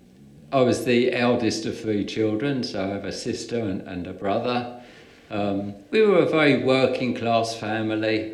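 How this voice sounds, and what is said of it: Brighton English accent. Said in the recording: “you haven't lost your Brighton accent at all”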